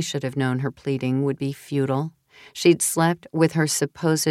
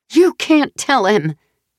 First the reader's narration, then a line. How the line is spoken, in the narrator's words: Jenny screamed over the rushing waves